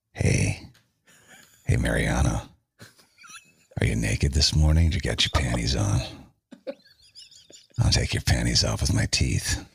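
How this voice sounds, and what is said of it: Put-on seductive sexy voice. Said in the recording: “use your sexy voice ... This is my sexy voice ... You know your sexy voice.”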